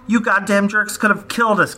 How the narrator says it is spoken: cried Jojo

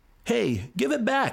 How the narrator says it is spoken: he hollered

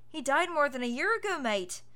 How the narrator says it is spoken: Ethan laughed

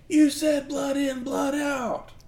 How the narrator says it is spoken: yelling

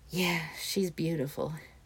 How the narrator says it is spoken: Momoru sighed

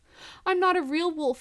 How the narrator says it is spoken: cries

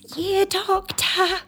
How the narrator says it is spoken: moan

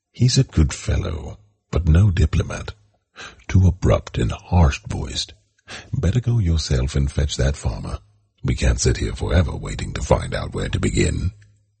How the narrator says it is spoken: He continued in a whispered aside to Colonel Shelton

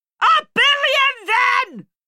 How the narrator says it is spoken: she snapped back

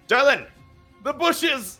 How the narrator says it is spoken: He shouts

